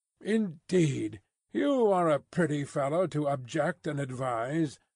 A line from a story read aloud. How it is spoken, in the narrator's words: exclaimed Mr